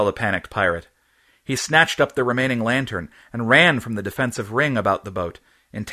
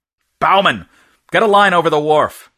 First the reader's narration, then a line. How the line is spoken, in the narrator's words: shouted Hereward